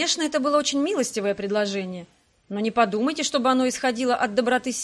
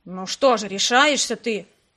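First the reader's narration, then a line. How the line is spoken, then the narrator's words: Irritated grumble. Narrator (Russian): проворчал управляющий, желавший отправить его ко всем чертям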